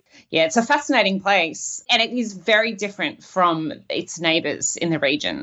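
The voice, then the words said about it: Australian accent. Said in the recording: “don't let the Australian accent fool you”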